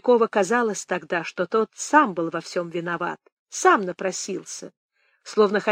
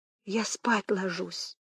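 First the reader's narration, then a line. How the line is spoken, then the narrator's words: Yawning whisper. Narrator (Russian): Она вдруг зевнула и шепотом сказала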